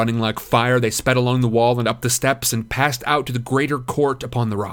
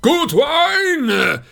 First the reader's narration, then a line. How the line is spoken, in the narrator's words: cried Éomer